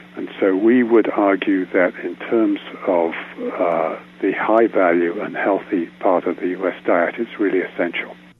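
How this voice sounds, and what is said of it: British-Australian tinged accent. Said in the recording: “If you detect a familiar accent, he is the son of a Brit and an Australian and spent 5 years of his early life in the wheat belt of Western Australia.”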